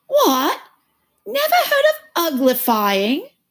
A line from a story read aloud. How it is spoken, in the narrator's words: it exclaimed